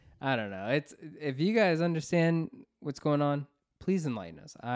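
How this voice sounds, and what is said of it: Usual voice. Nothing is said of it.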